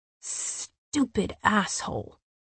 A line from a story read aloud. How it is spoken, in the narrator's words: Cassian snarled